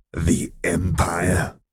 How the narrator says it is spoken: she growled lowly

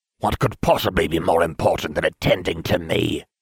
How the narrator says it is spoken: I snapped

